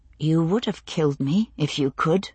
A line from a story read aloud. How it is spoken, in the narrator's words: I said, very quietly